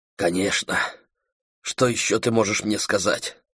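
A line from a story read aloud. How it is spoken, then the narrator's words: Whisper. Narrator (Russian): прошептал Дэйв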